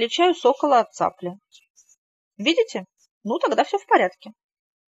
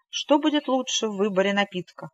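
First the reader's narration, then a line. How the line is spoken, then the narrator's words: Quick speech. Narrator (Russian): быстро продолжал он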